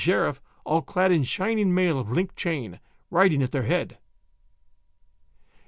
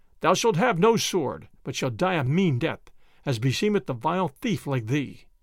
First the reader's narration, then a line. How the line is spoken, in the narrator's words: quoth the sheriff, looking right grimly upon Will Stutely